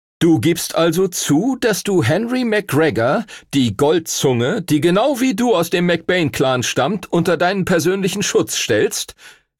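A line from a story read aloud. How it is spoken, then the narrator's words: Loud, emphatic question. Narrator (German): fragte Stuart Todd Senior laut und betont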